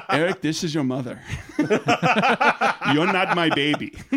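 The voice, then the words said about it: Imitated TV character, Chinese accent. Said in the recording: “in his full Jin Yang voice ... it's a Chinese guy with a Chinese accent ... In his voice.”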